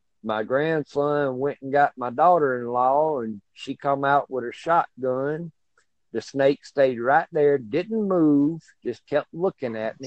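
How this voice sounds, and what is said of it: Southern US accent. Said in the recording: “from your accent, I can guess you're from the South... That's very obvious.”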